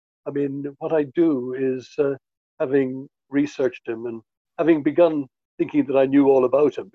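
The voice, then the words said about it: Posh Dublin accent. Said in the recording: “I've got the accent. He spoke with a sort of what they call a posh Dublin accent, Rathgar or Rathmines accent”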